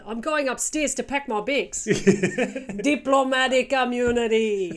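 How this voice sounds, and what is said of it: Put-on South African accent. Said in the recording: “I find South African really funny, so I would pick South African.”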